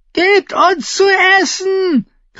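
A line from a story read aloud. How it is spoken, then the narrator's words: Woman shrieking. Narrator (German): kreischte eine Frau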